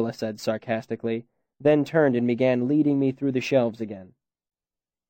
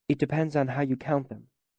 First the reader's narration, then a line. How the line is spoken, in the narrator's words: she said softly